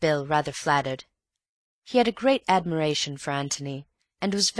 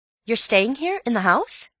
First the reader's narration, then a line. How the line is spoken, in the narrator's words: said Bill, eagerly